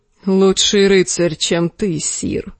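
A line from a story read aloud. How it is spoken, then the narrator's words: Cold. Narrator (Russian): холодно молвил Арстан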